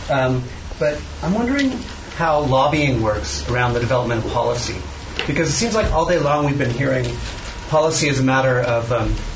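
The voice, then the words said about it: Non-British foreign accent. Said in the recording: “as you might be able to tell from my accent, I'm not from the UK.”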